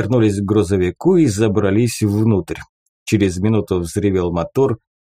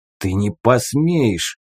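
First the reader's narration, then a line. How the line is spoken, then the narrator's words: Hissed. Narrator (Russian): прошипел Клык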